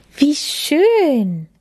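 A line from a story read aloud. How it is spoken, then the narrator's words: Calling out. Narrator (German): rief Lilly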